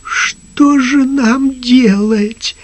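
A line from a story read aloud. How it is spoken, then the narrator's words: Trembling question. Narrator (Russian): спросил дрожащим голосом господин Туртур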